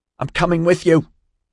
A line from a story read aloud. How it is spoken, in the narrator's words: Orion shouted